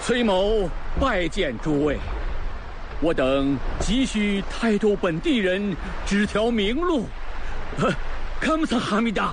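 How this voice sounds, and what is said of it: Korean-accented Mandarin. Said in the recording (Chinese): “听你这口音，大人可是来自朝鲜王国全罗道罗州？”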